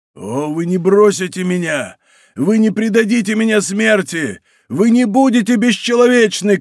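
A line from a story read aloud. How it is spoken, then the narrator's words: Shouting. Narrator (Russian): кричал Мордаунт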